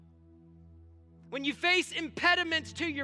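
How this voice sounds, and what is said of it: Usual voice. Nothing is said of it.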